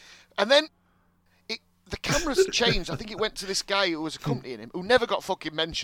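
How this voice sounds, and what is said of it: Usual voice. Nothing is said of it.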